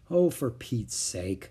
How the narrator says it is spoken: muttered Henry

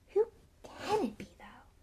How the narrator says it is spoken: She said in a quiet voice, as though continuing a conversation they had just been having

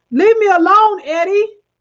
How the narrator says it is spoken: she screamed

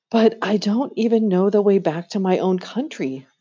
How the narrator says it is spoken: pleaded Edmund

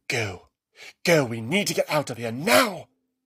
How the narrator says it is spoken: she hissed

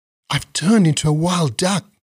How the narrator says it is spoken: cried Taro

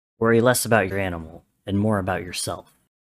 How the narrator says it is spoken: grunted

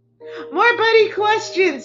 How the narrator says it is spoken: responded, roared with laughter again

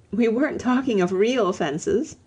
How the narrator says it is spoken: said Lucy, laughing

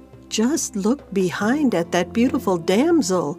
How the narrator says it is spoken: exclaimed the cat

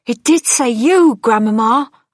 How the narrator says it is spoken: I cried

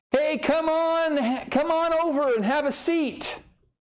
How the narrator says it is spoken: An old man spider called out

